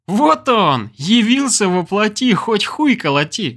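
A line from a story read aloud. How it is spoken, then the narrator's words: Laughing. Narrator (Russian): рассмеялся Олег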